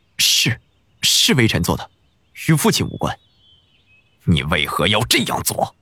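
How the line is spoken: Through clenched teeth. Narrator (Chinese): 安帝紧紧咬牙

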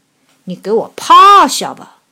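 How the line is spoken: Loud voice. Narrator (Chinese): 熊大声说

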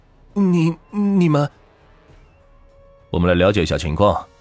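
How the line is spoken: Nervous stammer. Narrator (Chinese): 小柳是有点惊慌，他结结巴巴的说

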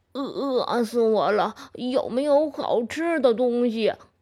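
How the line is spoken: Panting, breathless. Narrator (Chinese): 猪满头大汗，喘着气说

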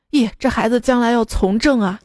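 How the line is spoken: Amazed exclamation. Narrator (Chinese): 夫妻俩惊叹道

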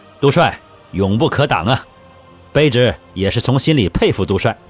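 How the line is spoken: Smiling. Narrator (Chinese): 李崇进也笑着

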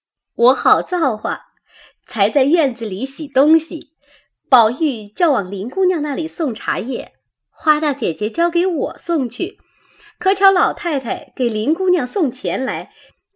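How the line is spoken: Laughing. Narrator (Chinese): 佳慧笑道

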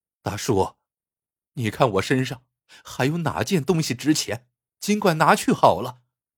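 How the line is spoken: Glum, tearful. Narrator (Chinese): 小伙子哭丧着脸说

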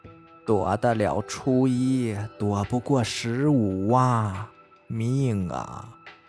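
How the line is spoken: Slow long sigh. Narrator (Chinese): 仙奶又悠悠地叹了一口气，说

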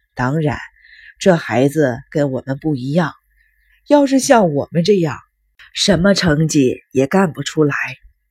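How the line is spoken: Half-joking. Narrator (Chinese): 养父半开玩笑地说

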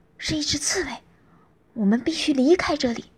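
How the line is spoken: Low urgent voice. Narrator (Chinese): 低声说

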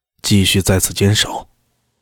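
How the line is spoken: Breathless soft question. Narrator (Chinese): 裴新简气喘吁吁地…轻声问道

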